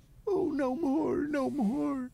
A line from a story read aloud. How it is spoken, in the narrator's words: sobbed Flora